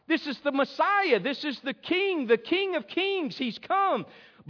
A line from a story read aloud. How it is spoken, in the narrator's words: they cried out